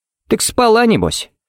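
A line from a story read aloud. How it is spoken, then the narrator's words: Chummy snort. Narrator (Russian): фыркнул Харри, будто они с Эйденом были лучшими приятелями и обсуждали девчонок за кружкой пива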